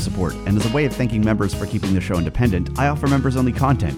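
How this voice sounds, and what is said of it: American West Coast accent. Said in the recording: “I have a very West Coast accent”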